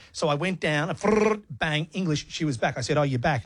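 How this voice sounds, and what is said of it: Broad Australian Bogan accent. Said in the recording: “My Bogan accent ... my Bogan accent.”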